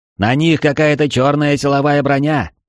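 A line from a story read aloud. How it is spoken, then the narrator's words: Shout. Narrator (Russian): прокричал Тьяго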